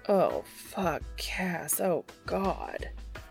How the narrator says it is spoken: groans

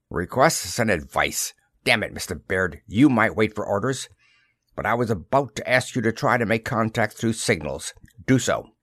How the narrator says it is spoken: The skipper grumbled

